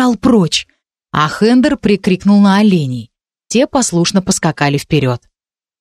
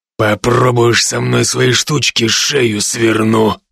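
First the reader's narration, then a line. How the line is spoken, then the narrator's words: Growled. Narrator (Russian): прорычал Хендер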